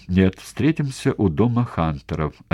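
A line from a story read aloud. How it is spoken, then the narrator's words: Plain. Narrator (Russian): ответил Йец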